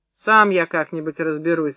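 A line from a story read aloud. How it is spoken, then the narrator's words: Dry. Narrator (Russian): сказал Митька сухо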